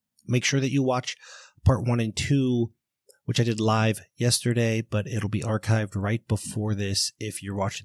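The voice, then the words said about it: Hoarse, strained voice. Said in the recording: “I'm losing my voice a little bit. Might be getting sick”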